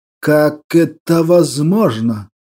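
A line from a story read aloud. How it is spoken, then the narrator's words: Breathy whisper. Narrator (Russian): Прошептал Берия на выдохе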